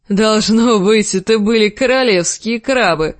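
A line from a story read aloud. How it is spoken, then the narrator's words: Laughing. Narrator (Russian): засмеялся Большой Джон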